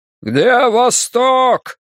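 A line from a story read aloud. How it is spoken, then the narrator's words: Man shouting. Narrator (Russian): кричал высокий муж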